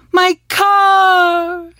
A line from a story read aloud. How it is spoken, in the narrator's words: Una cried